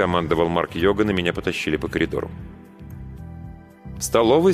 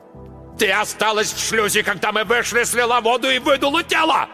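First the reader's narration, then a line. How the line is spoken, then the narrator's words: Yelling. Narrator (Russian): орал Марк Йоган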